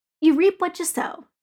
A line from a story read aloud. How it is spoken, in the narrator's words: Tony said